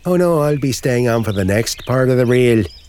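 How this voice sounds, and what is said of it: Put-on Irish accent. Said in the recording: “Your friend with the Irish accent there.”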